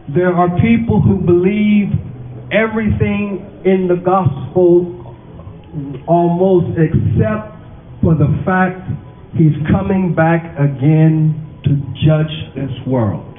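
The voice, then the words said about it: Black American accent. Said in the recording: “my accent is strange ... it's how I sound, it's how I talk ... It's a little bit strange as to how I speak. I'm a black American, and so we talk. Unlike CNN, we don't speak like that at home.”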